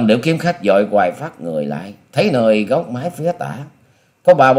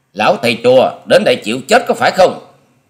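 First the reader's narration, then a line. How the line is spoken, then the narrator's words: Frightened but forced shout. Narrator (Vietnamese): Tuy thầm giật mình khiếp hãi, song Long Điểu Kiếm Khách cũng cố dằn y đưa giọng quát lên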